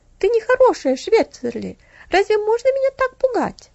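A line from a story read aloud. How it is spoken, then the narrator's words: Reproachful exclamation. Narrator (Russian): воскликнула Стефали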